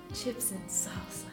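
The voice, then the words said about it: Put-on sexy voice. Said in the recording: “This is my sexy voice.”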